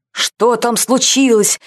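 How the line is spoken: Paranoid shout, general. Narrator (Russian): закричал генерал, которому повсюду чудились враги

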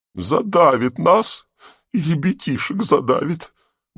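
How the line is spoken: Tearful peasant woman lamenting. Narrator (Russian): начала слезливым голосом приговаривать баба

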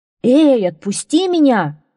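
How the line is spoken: Yelled. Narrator (Russian): завопил Локи

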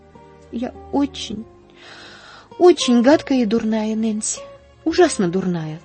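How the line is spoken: Sobbing. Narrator (Russian): всхлипнула она

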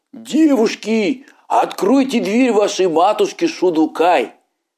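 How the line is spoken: Wolf shouting. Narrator (Russian): волк ... закричал

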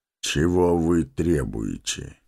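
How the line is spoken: Even voice. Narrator (Russian): спросил ровным голосом Гэндальф

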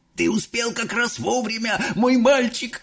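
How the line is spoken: Old man shouting. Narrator (Russian): закричал дедушка Джо

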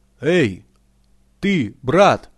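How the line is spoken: Shouting in turns. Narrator (Russian): кричали они по очереди

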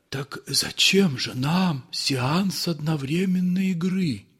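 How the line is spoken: Whisper. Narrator (Russian): зашептал администратор

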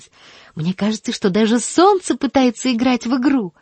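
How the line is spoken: Shouting. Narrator (Russian): закричала она

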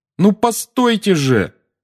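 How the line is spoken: Shouting after someone. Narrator (Russian): крикнул Гарри ей вслед

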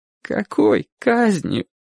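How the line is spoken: Near-sobbing boy. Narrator (Russian): почти рыдающим голосом спросил мальчик

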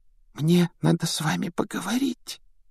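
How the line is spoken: Embarrassed whisper. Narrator (Russian): прошептала она смущенно

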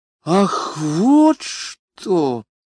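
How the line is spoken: With a deep sigh. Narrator (Russian): сказала пассажирка, глубоко вздохнув

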